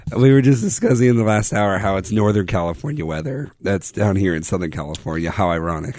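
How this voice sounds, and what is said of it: Hoarse, nearly lost voice. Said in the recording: “lost my voice, as you can tell ... I sound awful”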